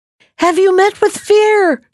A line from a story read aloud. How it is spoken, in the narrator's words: shouted the boy